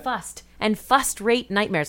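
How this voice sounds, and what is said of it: Put-on accent pronouncing first as fust. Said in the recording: “he has an accent ... I don't know what the accent is, but whatever it is, whatever accent makes first sound like fust”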